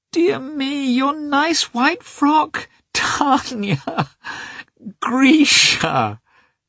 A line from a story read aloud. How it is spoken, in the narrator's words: cried their mother, smiling a blissful, rapturous smile